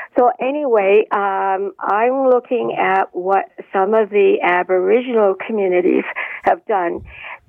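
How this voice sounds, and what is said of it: Crackly voice. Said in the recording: “My voice is kind of crackly”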